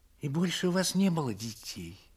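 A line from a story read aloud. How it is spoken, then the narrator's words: Timid question. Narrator (Russian): робко спросила барыня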